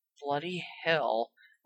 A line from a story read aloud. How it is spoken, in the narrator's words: Ron muttered